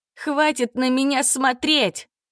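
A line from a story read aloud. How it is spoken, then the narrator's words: Girl shouting. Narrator (Russian): крикнула девочка, пряча лицо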